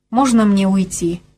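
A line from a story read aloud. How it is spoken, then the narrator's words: Plain. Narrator (Russian): спросила Беркли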